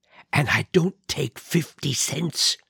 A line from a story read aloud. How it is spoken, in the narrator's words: he whispered in mockery